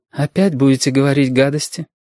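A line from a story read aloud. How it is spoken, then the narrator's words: Tired question. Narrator (Russian): спросила она устало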